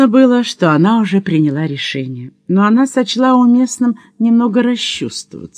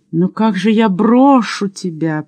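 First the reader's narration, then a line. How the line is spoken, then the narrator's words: Moaning. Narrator (Russian): простонала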